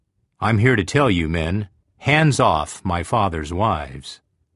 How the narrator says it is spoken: coldly announced

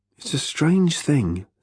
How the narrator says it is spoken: said Arthur quietly

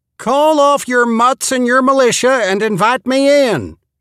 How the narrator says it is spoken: Cupping her hands around her mouth, she hollered

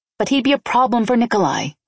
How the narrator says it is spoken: I snapped

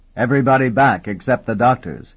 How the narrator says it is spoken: Vendacious bellowed at the soldiers

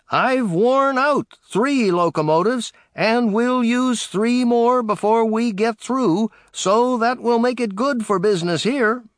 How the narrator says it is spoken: At Lima, home of a locomotive factory, he shouted

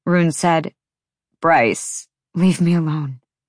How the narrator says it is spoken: she said quietly

